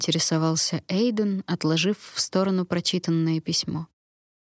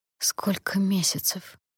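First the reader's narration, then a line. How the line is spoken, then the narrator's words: Hoarse, forced out. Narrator (Russian): хрипло выдавила я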